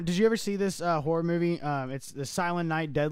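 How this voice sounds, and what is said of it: Usual voice. Nothing is said of it.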